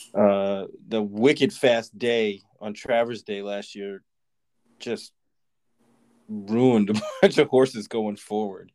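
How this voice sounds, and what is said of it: Put-on Boston accent. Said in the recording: “if I can bring my Boston accent into this”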